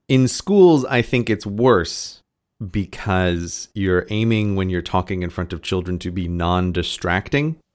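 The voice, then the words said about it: American accent. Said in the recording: “my accent has very naturally just drifted back ... much more towards the normal American”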